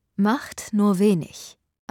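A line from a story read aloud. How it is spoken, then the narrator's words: Plain. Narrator (German): antwortete Eleanor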